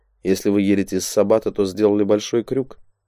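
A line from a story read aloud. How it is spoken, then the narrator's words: Calm explanation. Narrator (Russian): спокойно объяснил Дейл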